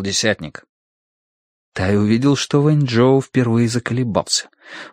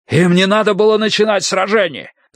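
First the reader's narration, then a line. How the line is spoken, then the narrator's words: Shout. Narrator (Russian): закричал командир Дуй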